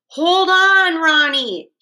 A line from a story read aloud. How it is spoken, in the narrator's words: shouted